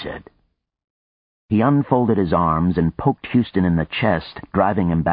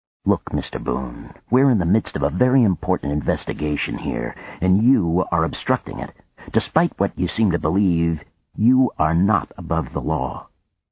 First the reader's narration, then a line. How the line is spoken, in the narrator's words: said in a low voice